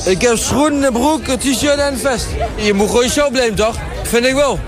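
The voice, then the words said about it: Noticeable regional Dutch accent. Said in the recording (Dutch): “Oh, heerlijk dat accent”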